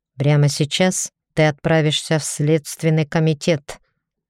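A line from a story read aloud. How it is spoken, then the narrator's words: Hissed through teeth. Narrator (Russian): процедил Ричард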